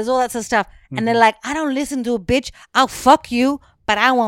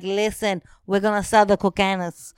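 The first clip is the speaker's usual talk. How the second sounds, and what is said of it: Put-on accent imitating TV character. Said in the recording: “I'm going to do the accent... Why do the accent?”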